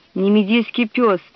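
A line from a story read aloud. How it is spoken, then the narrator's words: Grumbling. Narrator (Russian): проворчал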